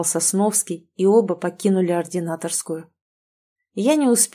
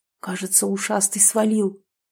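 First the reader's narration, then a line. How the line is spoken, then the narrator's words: Whispered. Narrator (Russian): прошептал он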